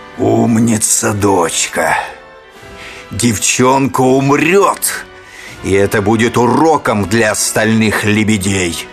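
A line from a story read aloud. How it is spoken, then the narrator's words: Evil laughter. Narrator (Russian): Ротбард злобно захохотал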